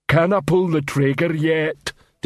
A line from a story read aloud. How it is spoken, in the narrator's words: Detritus rumbled into the man's ear